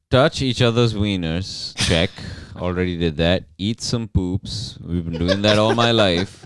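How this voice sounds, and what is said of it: Sarcastic reading aloud. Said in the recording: “This is just being sarcastic.”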